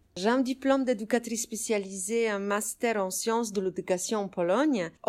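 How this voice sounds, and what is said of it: Polish accent speaking French. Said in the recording (French): “je suis d'origine polonaise. Peut-être vous avez compris euh, mon accent.”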